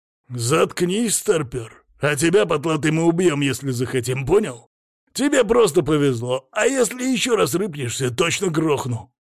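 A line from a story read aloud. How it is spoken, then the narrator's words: Growling threat. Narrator (Russian): Рыкнул на меня второй грабитель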